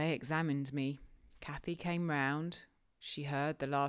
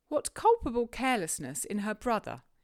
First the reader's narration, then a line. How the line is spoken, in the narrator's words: exclaimed Mr